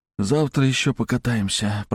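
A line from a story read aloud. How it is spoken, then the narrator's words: Sleepy mutter. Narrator (Russian): пробормотал я, засыпая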